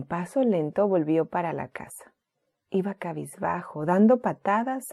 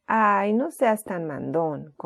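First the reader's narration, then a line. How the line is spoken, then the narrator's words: Grumpy reply. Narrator (Spanish): contestó Timoteo en tono gruñón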